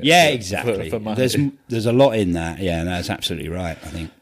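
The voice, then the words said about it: Flat Essex accent. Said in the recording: “I've got a funny accent ... Essex, like, you know what I mean? It's awful, awful, flat. I can hear it when I talk ... It's not Cockney”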